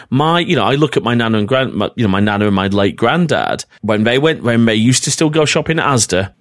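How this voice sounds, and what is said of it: Northern English accent. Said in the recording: “my northern accent's coming out here quite a bit”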